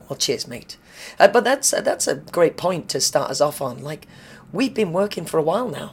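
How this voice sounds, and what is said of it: Tired, raspy, vocally fatigued voice. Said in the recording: “My exhausted, tired... Vocally fatigued work voice... sexy, raspy voice... That's vocal fatigue.”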